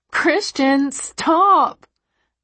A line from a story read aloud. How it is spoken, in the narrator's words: I plead